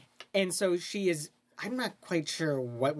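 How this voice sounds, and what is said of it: Usual voice. Nothing is said of it.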